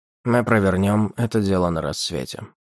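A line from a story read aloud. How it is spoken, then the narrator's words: Ordinary voice. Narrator (Russian): Гейл Винанд произнес своим обычным голосом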